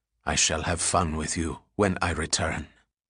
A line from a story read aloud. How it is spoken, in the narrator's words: Mahmoud whispered in her ear